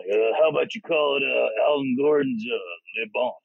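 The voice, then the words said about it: Imitates another person's voice. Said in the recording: “damn, that was a great impersonation... Good impression”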